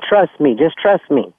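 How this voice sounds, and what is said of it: Soft sweet voice. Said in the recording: “in a sweet voice”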